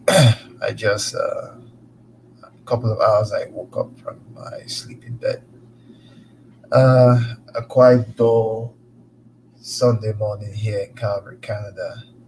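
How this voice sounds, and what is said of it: Cracky, just-woken-up voice. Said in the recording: “my voice is a little bit cracky”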